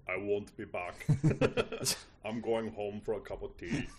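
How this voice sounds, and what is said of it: Imitates another person's voice. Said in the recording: “That's my Schwarzenegger impression.”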